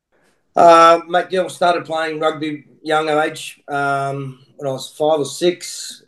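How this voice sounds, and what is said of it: Australian accent. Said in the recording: “great to hear an Aussie accent”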